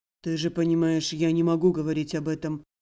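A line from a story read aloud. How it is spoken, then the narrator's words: Calm reassurance. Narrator (Russian): спокойно заверил хранитель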